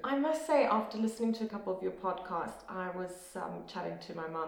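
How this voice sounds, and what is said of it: South African accent. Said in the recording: “proudly South African ... for anyone that enjoys the South African accent half as much as me, this episode is going to be a delight to listen to because you've got a beauty”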